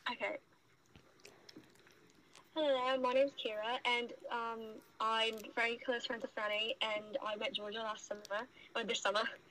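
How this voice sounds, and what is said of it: Put-on British accent. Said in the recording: “Do your introduction, but in British... In a British accent.”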